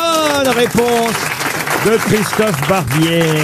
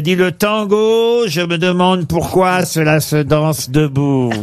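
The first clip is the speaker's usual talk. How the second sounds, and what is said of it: Imitates another person's voice. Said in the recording (French): “je suis obligé presque de prendre la voix ... Alors, une petite pointe, ouais”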